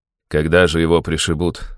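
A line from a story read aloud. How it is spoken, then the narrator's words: Angry father. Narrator (Russian): зло сказал отец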